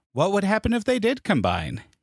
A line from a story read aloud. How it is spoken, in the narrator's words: he asked